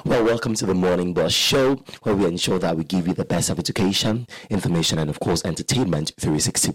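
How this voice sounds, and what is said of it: Raspy, hoarse voice. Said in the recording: “me losing my voice ... it did not get better. I think it even got worse ... raspy voices”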